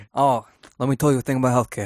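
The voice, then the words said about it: Imitates another person's voice. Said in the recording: “It's a really good impression.”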